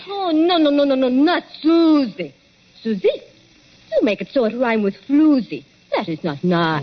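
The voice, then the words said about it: Put-on French accent. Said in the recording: “forget that French accent ... She's got some funny ideas, accents, and disguises.”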